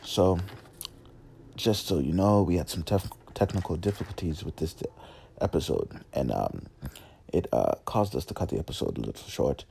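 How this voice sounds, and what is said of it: Attempted British accent. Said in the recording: “why am I talking in this accent? This is my attempt at a British accent”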